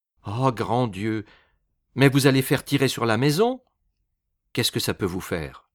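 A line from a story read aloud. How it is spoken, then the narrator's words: Cheerful. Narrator (French): reprit gaiement Nerbollier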